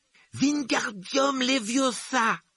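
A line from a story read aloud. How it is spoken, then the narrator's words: Exclaiming. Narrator (French): s'écriait-il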